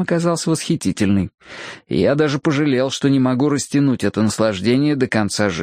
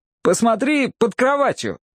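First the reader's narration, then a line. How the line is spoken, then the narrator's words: Shout. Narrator (Russian): крикнул я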